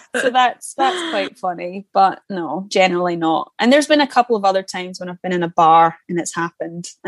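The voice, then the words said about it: Scottish accent. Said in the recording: “I get recognized in London purely because of my accent... I open my mouth and they're like Scottish”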